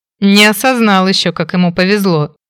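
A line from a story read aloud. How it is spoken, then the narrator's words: Laughing. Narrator (Russian): рассмеялся Фрэнк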